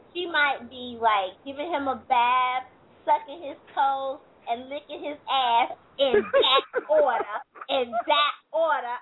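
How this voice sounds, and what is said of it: Mama G character voice. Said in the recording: “I'm in my Mama G voice.”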